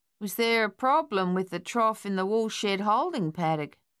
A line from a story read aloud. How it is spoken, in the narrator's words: he asked in his usual drawl